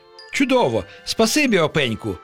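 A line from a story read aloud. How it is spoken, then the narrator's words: Exclaiming. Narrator (Ukrainian): вигукнув Пустомелик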